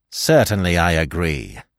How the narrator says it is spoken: Calmly and almost scornfully, he replied

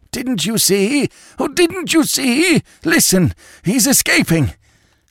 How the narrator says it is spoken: the doctor, who choked out

